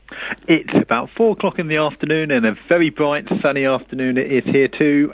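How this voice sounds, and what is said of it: Overseas accent. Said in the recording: “I love the accent. We can tell we're talking overseas.”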